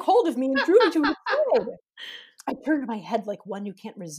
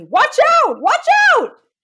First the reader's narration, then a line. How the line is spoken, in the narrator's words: my guide shouting to me